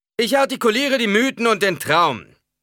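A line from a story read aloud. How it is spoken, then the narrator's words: Preacher calling out. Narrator (German): rief der Prediger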